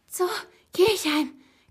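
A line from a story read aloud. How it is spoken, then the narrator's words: Panting into phone. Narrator (German): keuchte in mein Handy hinein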